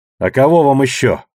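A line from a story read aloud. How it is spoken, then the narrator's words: Snapping retort. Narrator (Russian): огрызнулась Катрия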